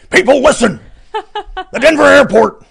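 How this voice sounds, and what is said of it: Good impression of a shouting radio host. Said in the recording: “Is that Alex Jones? ... that's a pretty good impression, dude.”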